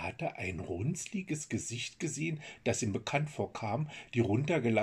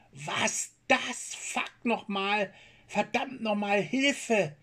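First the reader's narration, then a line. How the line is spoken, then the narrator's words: Screamed. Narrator (German): schrie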